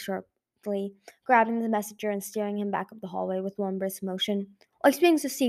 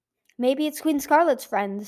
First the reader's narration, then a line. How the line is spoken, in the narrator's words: Sunny said anxiously